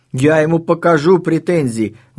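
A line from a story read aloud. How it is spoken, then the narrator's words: Yelling. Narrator (Russian): вопит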